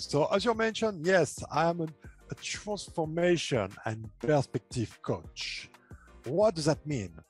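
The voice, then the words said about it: French accent. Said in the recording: “I have an accent and I'm French... I love your accent and I understand it perfectly”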